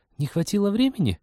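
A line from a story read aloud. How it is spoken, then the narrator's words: Uncertain guess. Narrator (Russian): неуверенно предположила Полина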